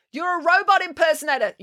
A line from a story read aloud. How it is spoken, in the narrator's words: yelled Tammy